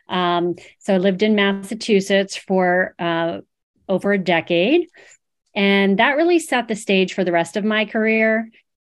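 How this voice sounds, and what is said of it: East Coast American accent. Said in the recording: “I'm an East Coaster, if you couldn't tell by my accent.”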